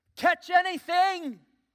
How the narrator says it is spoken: the figure who had his hands cupped over his mouth, was yelling

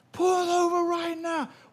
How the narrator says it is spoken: I start yelling again back at this guy

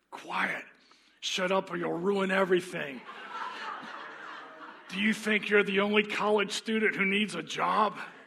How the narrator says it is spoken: The lion hissed

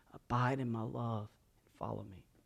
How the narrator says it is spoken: King Jesus' voice as He whispers

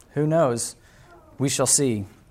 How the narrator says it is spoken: Calmly, the farmer answered

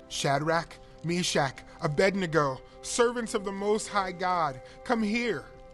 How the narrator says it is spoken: He called out

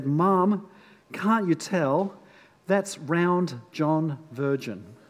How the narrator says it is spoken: the little girl sighed and said

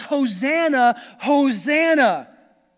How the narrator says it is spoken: they were shouting

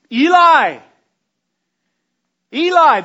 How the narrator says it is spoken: Jesus cried out in a loud voice

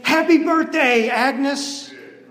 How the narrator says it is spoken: They all shout and scream

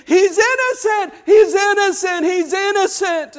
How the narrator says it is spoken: Women fell to the ground weeping and screaming

